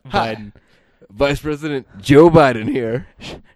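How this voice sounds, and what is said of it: Joe Biden impression. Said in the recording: “A really killer, killer Joe Biden.”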